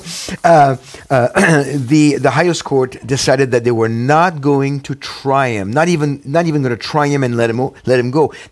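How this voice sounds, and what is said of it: French accent. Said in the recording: “Which is where you're from originally. ... Do you think people can't pick up the accent?”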